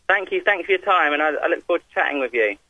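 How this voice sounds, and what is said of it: Southern English accent. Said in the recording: “I have to address your accent ... I'm from a place called Surrey, which is just outside of London, so sort of south of London”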